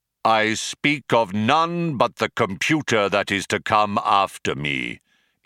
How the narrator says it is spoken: intoned Deep Thought, his voice regaining its accustomed declamatory tones

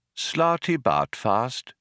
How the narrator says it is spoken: repeated the old man quietly

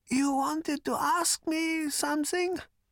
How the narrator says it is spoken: said Prak in a thin voice and coughed slightly

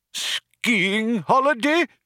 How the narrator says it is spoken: cried the old man

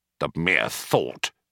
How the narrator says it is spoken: growled Mr

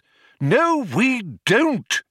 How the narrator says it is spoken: exclaimed Magic Thighs in irritation

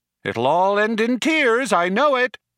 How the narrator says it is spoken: shouted Eddie after them

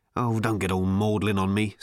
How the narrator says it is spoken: snapped Ford

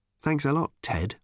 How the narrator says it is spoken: muttered Tricia

